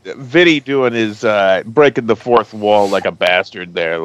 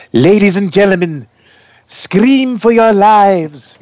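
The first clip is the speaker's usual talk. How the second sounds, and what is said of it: Imitates another person's voice. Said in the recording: “Vincent Price ... you should probably do the impersonation.”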